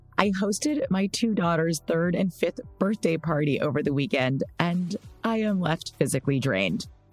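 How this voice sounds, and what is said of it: Scratchy tired voice. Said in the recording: “if my voice is a little scratchy”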